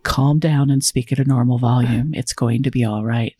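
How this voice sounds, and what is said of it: Calm, measured NPR-style voice. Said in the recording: “Like I'm putting on my NPR voice.”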